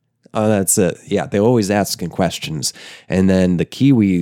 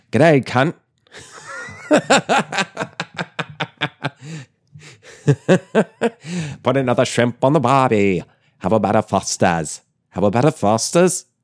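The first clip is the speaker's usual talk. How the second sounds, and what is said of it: Bad put-on Australian accent. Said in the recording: “I'm closer to doing an Australian accent than a New Zealand accent, and I can't do an Australian accent.”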